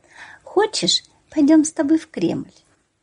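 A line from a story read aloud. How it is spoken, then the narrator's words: Mother's tender question. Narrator (Russian): Мама ласково спросила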